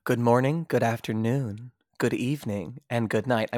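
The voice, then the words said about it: Calm, polished public-radio announcer voice. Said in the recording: “I went full NPR voice today.”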